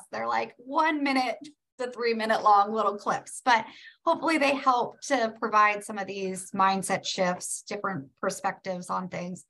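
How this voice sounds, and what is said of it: Strained, fading voice. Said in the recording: “I seem to be losing my voice.”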